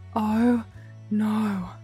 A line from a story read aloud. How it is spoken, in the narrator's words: Bentley breathed